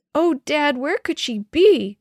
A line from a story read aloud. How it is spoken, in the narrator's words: Denny cried